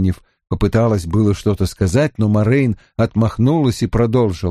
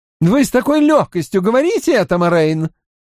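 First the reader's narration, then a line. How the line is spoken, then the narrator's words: Exclaimed. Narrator (Russian): воскликнула Найниф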